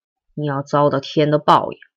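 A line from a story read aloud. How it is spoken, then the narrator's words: Cold. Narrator (Chinese): 他 冷冷的说出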